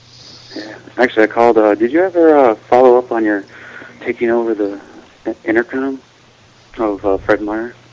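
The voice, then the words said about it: Sad, depressed-sounding voice. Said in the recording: “You sound depressed. ... You sound sad.”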